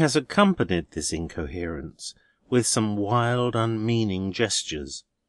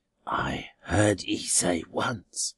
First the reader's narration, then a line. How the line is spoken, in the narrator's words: croaks under her breath